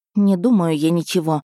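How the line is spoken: Irritated reply. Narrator (Russian): раздраженно ответила некромантка

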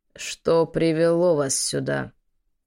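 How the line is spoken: Low hoarse rasping voice. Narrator (Russian): Голос неожиданно низкий, хриплый, скребущий горло и вызывающий желание откашляться

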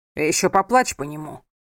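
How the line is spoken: Roar. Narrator (Russian): Взревел он

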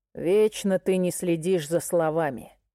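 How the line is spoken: Growl. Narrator (Russian): прорычал

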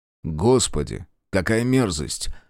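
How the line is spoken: Disgusted mutter. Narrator (Russian): брезгливо процедил Белецкий

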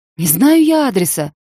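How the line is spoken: Shouting into phone. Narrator (Russian): кричала я уже в улетающие гудки

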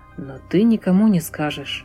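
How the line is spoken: Whisper. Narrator (Russian): прошептал я

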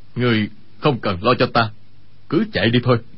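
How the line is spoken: Lowered voice. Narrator (Vietnamese): Y hạ giọng nói

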